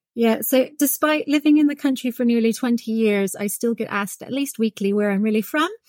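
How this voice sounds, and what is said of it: Non-British foreign accent. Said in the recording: “listeners will have picked up maybe from your accent that although you're based here in the UK, you're not originally from here”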